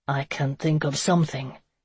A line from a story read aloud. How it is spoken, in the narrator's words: Conan said huskily